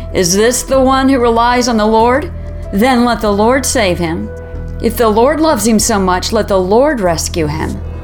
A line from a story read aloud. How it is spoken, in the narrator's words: They sneer and shake their heads, saying